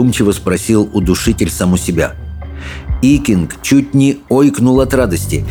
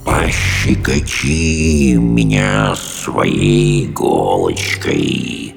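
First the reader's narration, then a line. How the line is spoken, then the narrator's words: Monster hissing. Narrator (Russian): прошипело чудовище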